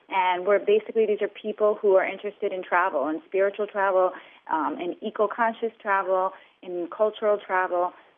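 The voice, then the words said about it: American accent. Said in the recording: “you've got a very American accent there”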